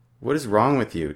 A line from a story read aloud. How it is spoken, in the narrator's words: Jessie asks